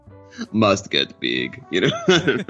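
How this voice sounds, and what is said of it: Imitates a musclebound bodybuilder accent. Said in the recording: “it's got that Schwarzenegger... every muscle builder has a Schwarzenegger accent”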